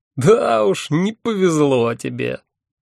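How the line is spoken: Hearty laughter. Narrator (Russian): От души расхохотался мой собеседник

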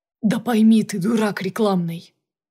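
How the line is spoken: Sighing. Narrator (Russian): вздохнул Юрьевский

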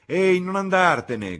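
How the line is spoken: Shouting. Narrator (Italian): gridò Freddy

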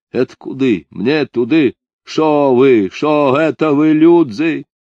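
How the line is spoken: Loud awkward question. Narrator (Russian): спросил громко и нелепо

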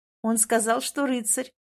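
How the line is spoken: Giggling. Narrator (Russian): хихикаю я

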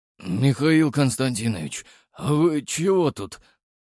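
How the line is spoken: Sleepy question. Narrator (Russian): сонно спросил лейтенант

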